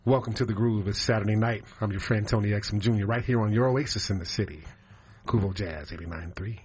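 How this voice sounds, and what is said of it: Smooth jazz radio announcer voice. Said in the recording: “Give me your best jazz voice”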